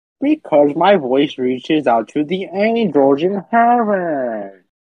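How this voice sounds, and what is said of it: Funny, angelic-sounding character voice. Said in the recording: “my voice is funny ... You have an angelic, quite angelic voice”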